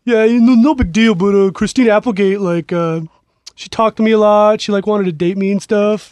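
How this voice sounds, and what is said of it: Imitates another person's voice. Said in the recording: “Good Joey Pags impression. ... I was tempering it. ... Spot on Pags. ... He's a little more mumbly Pegs in his mouth”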